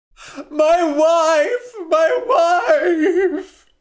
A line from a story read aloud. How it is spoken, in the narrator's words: cried Dai